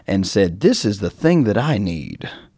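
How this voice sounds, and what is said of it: Imitates another person's voice. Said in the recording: “That's my best Gene Simmons impression”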